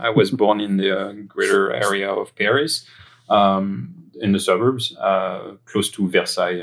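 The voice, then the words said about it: French accent. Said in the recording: “that happened in France, as my accent might betray”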